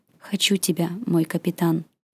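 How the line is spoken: Intimate whisper in ear. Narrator (Russian): прошептал на ушко

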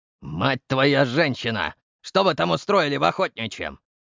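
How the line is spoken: Barked. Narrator (Russian): рявкнул Самсон

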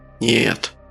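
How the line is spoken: Hoarse, doubtful. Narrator (Russian): Голос Френа был хриплым, в нем явно сквозила нотка сомнения

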